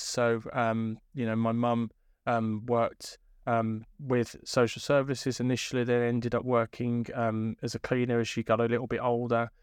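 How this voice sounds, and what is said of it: Birmingham English accent. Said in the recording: “you can probably tell from my accent, I'm from Birmingham”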